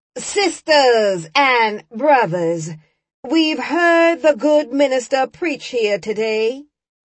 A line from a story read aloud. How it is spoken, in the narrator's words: Deacon Brown was shouting